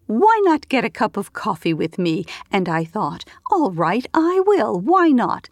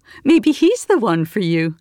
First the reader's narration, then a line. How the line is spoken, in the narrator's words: her mother laughed the little giggle Miriam recognized as the one her mother reserved for men, high and girlish